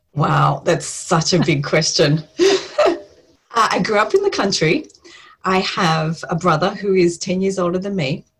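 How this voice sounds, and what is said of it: Australian accent. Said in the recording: “everyone can tell from your accent, you live in Australia”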